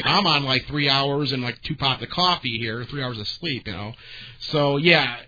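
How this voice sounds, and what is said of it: Worn-out, strained voice. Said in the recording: “as you can hear, my voice is shot ... it's fried from working”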